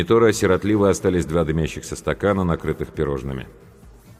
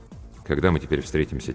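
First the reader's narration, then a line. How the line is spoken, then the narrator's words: Quiet question. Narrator (Russian): тихо спросил я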